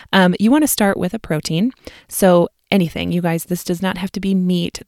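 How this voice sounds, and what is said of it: Midwestern American accent. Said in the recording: “my Midwestern accent is really coming out”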